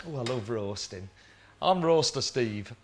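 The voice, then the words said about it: Put-on Yorkshire accent. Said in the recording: “I don't know why I'm talking in a Yorkshire accent, but I'll go back to my normal one.”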